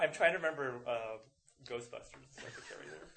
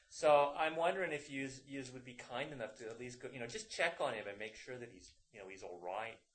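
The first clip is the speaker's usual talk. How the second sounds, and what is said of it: Put-on Irish-British accent. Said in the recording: “I love the accent. That was awesome. ... I almost got a British accent. Irish accent.”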